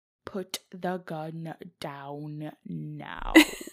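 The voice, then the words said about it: Slow, drawn-out villain voice. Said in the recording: “when he talks slow, he sounds like Snape.”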